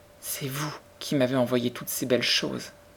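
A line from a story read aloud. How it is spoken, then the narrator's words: Small, moved, joyful voice. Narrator (French): dit-elle d'une petite voix à la fois émue et joyeuse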